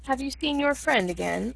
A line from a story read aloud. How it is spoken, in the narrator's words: I asked him